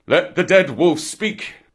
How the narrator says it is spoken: the seniors of the pack thundered

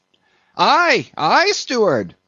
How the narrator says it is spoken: cried Stubb

